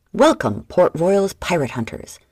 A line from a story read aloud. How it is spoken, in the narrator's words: Piper exclaimed